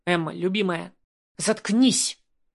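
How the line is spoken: Furious hiss. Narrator (Russian): Не сдержавшись, зашипела на него разъяренной кошкой

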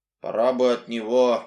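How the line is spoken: Grumbling. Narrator (Russian): пробурчал Сэл

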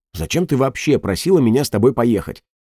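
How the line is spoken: Snapping, lost composure. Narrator (Russian): Потеряв самообладание, огрызнулся Петер

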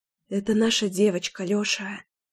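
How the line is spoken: Whisper. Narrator (Russian): прошептала я

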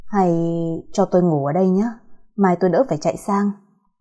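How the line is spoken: Timid mumble. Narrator (Vietnamese): ông lí nhí nói

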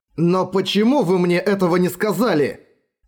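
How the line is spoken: Exclaimed. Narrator (Russian): Воскликнул Эрагон

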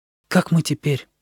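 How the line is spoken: Whispered question. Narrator (Russian): Димка шепотом спросил

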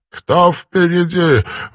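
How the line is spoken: Breathless. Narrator (Russian): выдохнул он

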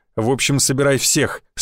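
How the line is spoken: Steely voice. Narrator (Russian): стальным голосом произнес Гвоздев

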